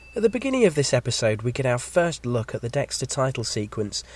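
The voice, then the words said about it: Slightly croaky voice. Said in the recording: “I've got a bit of a cold, so if my voice sounds a bit croaky or if I sound like I need to cough”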